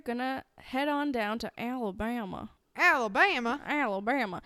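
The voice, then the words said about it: Put-on Alabama Southern accent. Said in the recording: “I don't know if that's an Alabama accent”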